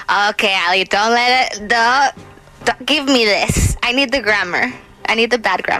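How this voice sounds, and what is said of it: English accent. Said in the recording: “she's got this sweet accent? ... Yes, you have an accent, ... I don't know why I still have an accent. I don't know why I'm that English.”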